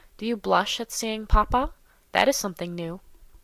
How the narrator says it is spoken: said Monsieur de Bassompierre in a low voice, with a grave smile

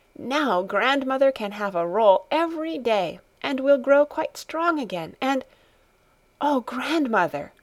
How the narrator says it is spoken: she suddenly exclaimed, with an increase of jubilation in her voice

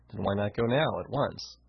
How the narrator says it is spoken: He sighed

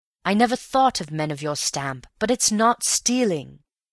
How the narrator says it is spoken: exclaimed heatedly

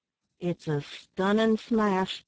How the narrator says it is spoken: said Bill, fetching a deep sigh

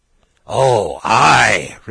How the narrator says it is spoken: replied the guests, in the hearty tones natural when the words demanded by politeness coincide with those of deepest feeling

